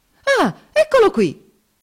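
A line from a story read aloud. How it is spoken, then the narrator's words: Indignant exclamation. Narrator (Italian): esclamò indignato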